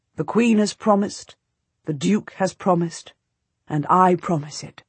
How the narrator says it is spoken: he says

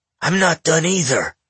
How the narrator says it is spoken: Tar snarled

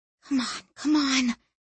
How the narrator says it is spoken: she whispered

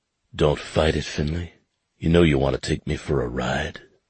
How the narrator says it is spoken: he whispered, deep and raspy

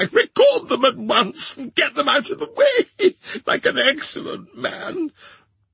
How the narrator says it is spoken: cried Miss Broth, still wildly crying

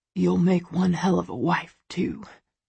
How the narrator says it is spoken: he whispers, his voice hoarse

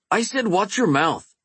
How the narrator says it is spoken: Eben snapped

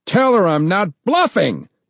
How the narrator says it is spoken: John shouted

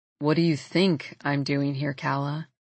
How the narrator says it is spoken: He sighs

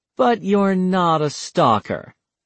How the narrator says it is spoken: Taylor said dryly

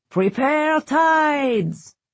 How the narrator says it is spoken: Merrick bellowed

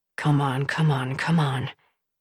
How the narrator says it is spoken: I heard Ben whisper to himself

